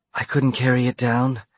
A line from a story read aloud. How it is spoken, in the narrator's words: she whispered